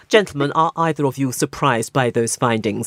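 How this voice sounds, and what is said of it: Exaggeratedly sober, serious delivery. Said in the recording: “I'll repeat that question in my most sober voice ... That's sober enough for you, isn't it?”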